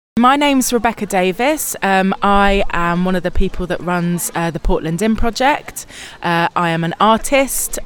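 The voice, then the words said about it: South East London accent. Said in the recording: “I'm detecting, much like my accent, you're not from around these parts originally... I'm from London, South East London.”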